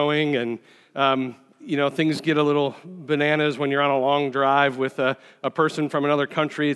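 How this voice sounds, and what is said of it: Usual voice. Nothing is said of it.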